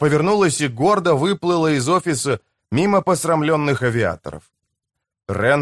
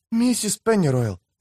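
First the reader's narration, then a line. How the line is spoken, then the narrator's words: Whisper. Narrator (Russian): прошептала она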